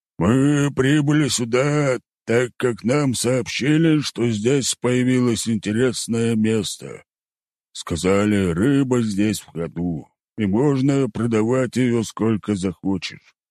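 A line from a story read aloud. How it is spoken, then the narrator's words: Deep bass voice. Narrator (Russian): пробасил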